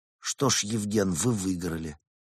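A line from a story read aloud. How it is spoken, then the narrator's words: Sighing. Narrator (Russian): вздохнул и сказал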